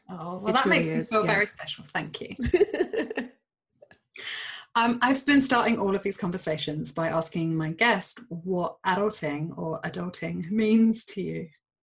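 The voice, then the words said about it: English accent, dreamy voice. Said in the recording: “you have such a dreamy voice ... the accent thing where you're like, oh, she sounds so quaint in English”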